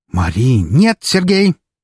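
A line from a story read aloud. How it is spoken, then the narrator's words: Furious bark. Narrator (Russian): рявкнула его жена, постепенно превращаясь в яростную фурию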